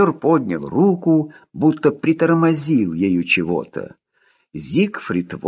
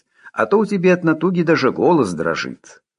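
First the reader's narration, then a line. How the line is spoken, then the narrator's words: Cheerful advice. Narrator (Russian): бодро посоветовал штабной связист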